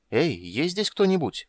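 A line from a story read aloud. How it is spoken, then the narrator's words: Uncertain calling. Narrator (Russian): неуверенно позвала Крисания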